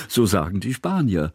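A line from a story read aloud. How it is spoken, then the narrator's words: Laughing. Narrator (German): lachte Kusmin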